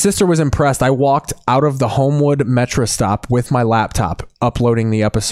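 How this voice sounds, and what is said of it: Usual voice. Nothing is said of it.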